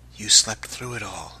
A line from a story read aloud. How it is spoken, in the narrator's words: he half-whispered